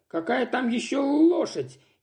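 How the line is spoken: Dismissive, laughing hard. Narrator (Russian): Не переставая заливаться хохотом, отмахнулся Костя

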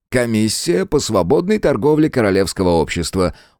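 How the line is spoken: Weary sigh. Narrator (Russian): устало вздохнул Олифант

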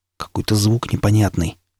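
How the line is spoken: Quiet. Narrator (Russian): тихо сказал напарник

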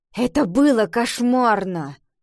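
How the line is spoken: Grumbling reply. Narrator (Russian): Пробурчала Ива в ответ

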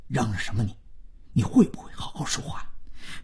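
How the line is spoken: Quiet but stern. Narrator (Chinese): 万征说话虽然还很小声，但颇为严厉

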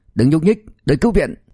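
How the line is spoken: Shout. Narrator (Vietnamese): Y hét

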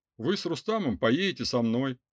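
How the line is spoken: Brisk, cheerful male. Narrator (Russian): бодро сообщил он

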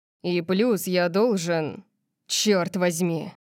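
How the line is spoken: Growled, cutting himself off. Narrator (Russian): Он зарычал, как будто пытался остановить себя от продолжения

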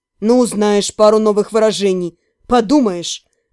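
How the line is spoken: Dismissive snort. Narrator (Russian): хмыкнул Кэрри

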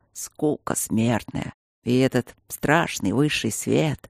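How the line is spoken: Muttered. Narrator (Russian): пробормотал Алекс

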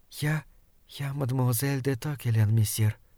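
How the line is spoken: Whisper. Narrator (Russian): прошептала она

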